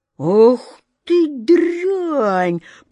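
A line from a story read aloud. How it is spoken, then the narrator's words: Thunderous menacing voice. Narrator (Russian): прогремел грозный голос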